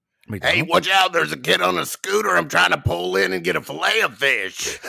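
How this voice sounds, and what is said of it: Imitates another person's voice. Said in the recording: “that is a spot-on impersonation that ... has done there”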